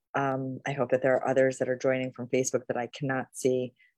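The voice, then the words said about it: Low, slow, under-the-weather voice. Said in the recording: “I'm a little bit under the weather today, so my voice is very low ... this is the opportunity to experiment with slow speaking.”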